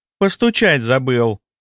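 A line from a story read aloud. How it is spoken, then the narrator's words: Snide. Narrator (Russian): ехидно произнесла Агаши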